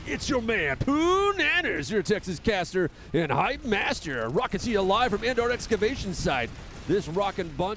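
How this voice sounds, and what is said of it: Monster truck rally announcer voice. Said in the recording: “my best Monster Truck Rally impression”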